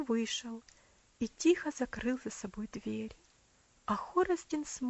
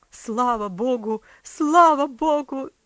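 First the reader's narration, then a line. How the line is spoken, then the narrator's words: Overwhelmed cry, loud sobbing. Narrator (Russian): закричал отец, бессильно опускаясь на стул, громко зарыдал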